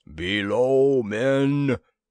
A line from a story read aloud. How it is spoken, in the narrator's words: thundered a Skygor guard